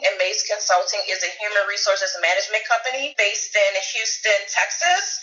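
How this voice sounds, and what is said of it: New Orleans accent. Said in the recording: “I'm originally from New Orleans, Louisiana. You probably hear the accent.”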